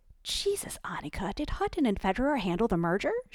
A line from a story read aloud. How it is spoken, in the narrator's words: she squeaked